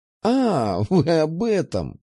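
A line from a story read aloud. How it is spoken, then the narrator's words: Laughing. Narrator (Russian): рассмеялась она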